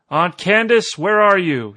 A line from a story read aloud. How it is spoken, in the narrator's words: he called out in a loud voice